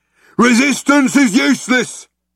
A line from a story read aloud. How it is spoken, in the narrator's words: bellowed the guard